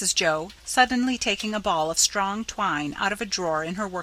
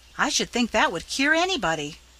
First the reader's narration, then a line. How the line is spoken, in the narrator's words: cried Nan